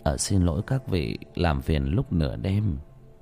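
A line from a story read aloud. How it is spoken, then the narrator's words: Mutter. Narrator (Vietnamese): miệng lẩm bẩm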